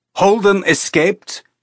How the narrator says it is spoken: Illich shouted

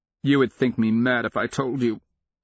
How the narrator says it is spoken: the young king of Sarkarpus said, his voice cracking

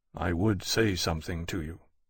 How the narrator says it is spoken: Lawrence said quietly

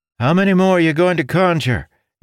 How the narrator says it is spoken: Ildin shouted

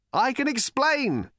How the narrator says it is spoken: shouted Arthur

